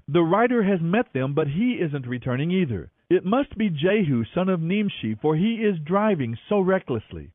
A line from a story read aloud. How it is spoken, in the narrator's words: The watchman exclaimed